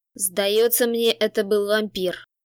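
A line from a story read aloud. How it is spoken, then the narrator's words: Growled. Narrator (Russian): прорычал Олик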